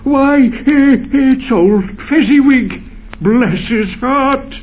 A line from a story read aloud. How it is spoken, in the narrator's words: Scrooge cried in great excitement